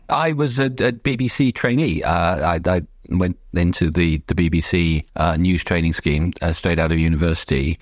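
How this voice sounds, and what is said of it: Southeast English accent. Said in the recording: “I was born in Wales, but listening to my accent, you wouldn't know that ... I spent my teenage years in the southeast of England, and now sound like that.”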